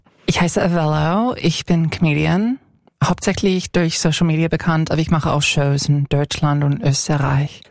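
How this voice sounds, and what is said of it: American accent speaking German. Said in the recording (German): “Du hast einen Akzent? ... Ich komme aus den USA, ich komme aus Kalifornien”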